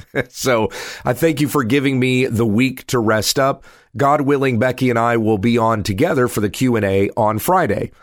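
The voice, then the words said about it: Congested, strained voice. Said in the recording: “I'm congested this week. It's hard to hold on to my voice for very long”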